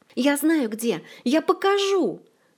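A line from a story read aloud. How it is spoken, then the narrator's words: Yell. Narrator (Russian): На вопле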